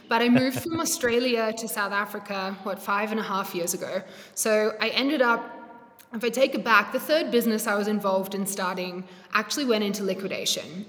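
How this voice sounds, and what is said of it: Blended accent. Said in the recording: “I'm not South African. This accent is definitely a blend.”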